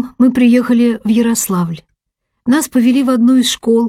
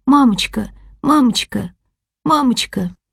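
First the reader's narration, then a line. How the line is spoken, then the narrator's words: Terrified plaintive sobbing. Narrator (Russian): Я вся дрожа от ужаса, жалобно всхлипывала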